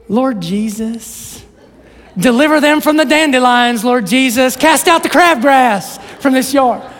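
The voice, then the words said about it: Put-on sweet Southern accent. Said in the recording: “she's from Louisiana. She's got that sweet Southern accent.”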